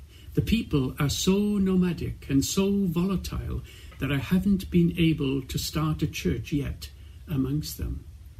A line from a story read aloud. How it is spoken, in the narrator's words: he replied quietly